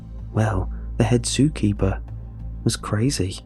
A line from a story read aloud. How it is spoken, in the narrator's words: I began in a low tone